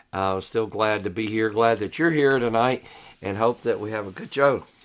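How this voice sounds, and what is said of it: Hoarse, partly lost voice. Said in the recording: “I'm a little hoarse ... I have kind of lost my voice the last few days ... a little bit of cough and some hoarseness ... if it sounds a little funny”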